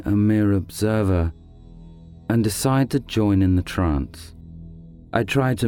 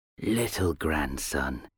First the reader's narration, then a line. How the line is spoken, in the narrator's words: wheezed Old Wrinkly